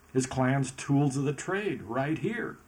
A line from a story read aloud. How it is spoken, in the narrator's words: Mariah happily seconded